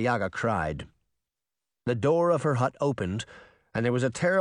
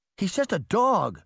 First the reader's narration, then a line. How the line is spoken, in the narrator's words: Sabrina cried